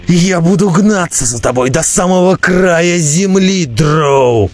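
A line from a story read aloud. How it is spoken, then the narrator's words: Roaring. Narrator (Russian): проревел Роди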